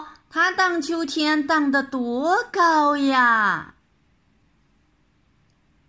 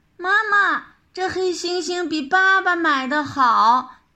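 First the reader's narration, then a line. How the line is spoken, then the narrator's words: Excited exclamation. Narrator (Chinese): 小凤梨又叫了起来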